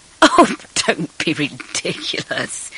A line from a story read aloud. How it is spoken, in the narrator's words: he said, laughing